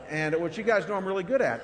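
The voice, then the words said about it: Sarcastic tone. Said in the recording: “that was sarcastic.”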